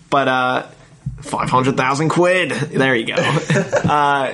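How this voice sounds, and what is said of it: Weak attempt at Australian accent. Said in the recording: “Oh, God, I can't get my Australian accent going.”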